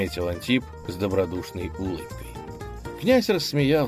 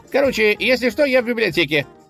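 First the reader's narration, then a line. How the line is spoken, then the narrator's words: Parting shout. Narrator (Russian): крикнул он напоследок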